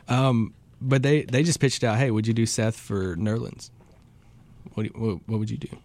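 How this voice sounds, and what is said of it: Southern US country accent. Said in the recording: “I'm country, guys. ... North Carolina. ... You can probably tell it in my accent.”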